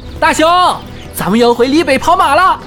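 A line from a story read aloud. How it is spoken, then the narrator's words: Giddy shout. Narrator (Chinese): 丁桃在傻乐，他喊道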